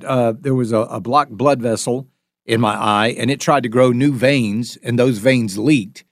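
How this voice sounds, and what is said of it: Usual voice. Nothing is said of it.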